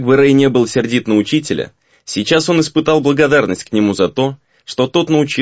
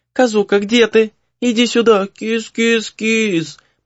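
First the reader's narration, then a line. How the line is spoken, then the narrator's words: Fake sweet, then shouting. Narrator (Russian): Притворно ласковым голоском звала Минако и тут же срывалась на крик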